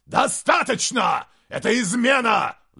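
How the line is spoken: Roared. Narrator (Russian): взревел Гутвульф

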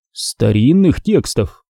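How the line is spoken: Calm but insistent repetition. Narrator (Russian): спокойно, но настойчиво повторил Пертураба

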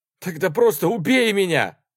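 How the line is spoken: Shouting. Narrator (Russian): крикнула

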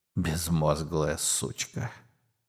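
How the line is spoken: Muttering. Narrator (Russian): бормочет большой круг

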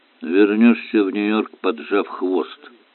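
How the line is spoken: Gloomy prediction. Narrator (Russian): мрачно предсказал инспектор

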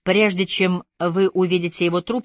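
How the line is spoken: Plain. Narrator (Russian): сказал он

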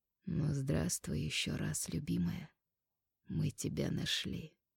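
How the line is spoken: Quiet. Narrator (Russian): Арнау произнес тихо

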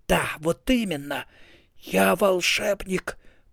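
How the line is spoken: Hissing. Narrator (Russian): прошипел Ринсвинд

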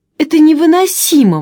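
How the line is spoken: Exclaiming. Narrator (Russian): воскликнула Флори

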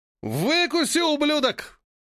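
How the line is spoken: Roaring enemy. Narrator (Russian): проревел враг

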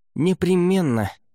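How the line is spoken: Smug snort. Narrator (Russian): самодовольно хмыкнул Лаверн

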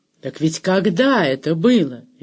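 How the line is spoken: Cheerful exclamation. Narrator (Russian): весело воскликнула Кандесса

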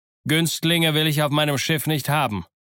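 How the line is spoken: Very loud speech. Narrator (German): ihn ganz laut zum Doktor sagen

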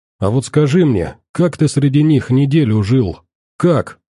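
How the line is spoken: Plain. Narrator (Russian): спросил он

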